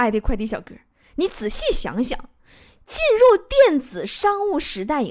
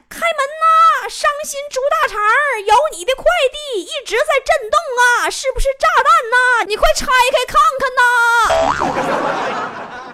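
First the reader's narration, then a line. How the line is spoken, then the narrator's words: Yelling while banging door. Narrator (Chinese): 快递小哥嗷嗷砸我家门呐，一边砸还一边喊呢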